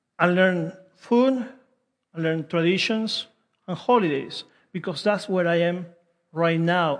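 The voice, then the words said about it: Non-native English accent. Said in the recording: “I have to adapt, have to learn a new language. I would like to get rid of my accent ... I'll keep my accent”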